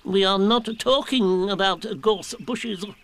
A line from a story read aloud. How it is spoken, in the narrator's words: said Owl a little crossly